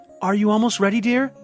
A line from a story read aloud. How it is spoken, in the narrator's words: Mayella called out to her husband